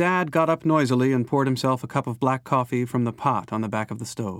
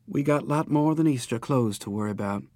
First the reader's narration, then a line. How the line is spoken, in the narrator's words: Then more wearily